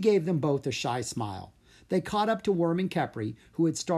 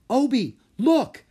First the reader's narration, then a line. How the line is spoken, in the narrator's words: Drake cried